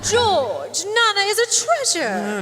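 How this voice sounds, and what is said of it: Funky put-on stage accent. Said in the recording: “your accent, I don't know about that. It's a little funky.”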